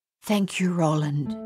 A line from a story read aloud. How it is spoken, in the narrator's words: Madame Chaussy whispered